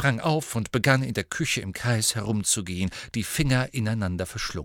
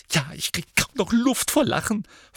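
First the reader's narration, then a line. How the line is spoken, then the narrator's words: Hissing. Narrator (German): fauchte Hermine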